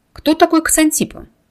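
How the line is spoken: Blurted in one breath. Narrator (Russian): Кира выпалила свой вопрос на одном дыхании, словно боялась

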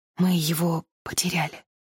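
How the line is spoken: Exhausted voice. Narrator (Russian): Она проговорила измученным голосом

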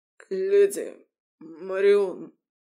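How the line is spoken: Strained hoarse rasp. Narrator (Russian): прохрипел Феодор, чувствуя прижатую к горлу сталь

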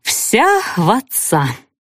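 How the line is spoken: Sighing old nanny. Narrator (Russian): опять вздохнула нянька

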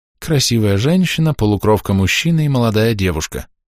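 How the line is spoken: Sad. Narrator (Russian): как-то грустно кивнул Гидепад

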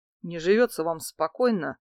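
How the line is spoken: Muttered. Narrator (Russian): буркнул он

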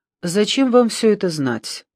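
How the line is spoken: Calm, level voice. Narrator (Russian): поинтересовался Доранди все таким же ровным голосом

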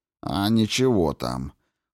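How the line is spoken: Gloomy reply. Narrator (Russian): мрачно ответил Кин

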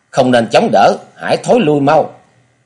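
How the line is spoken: Panicked shout. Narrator (Vietnamese): một giọng nói hoảng hốt la lên

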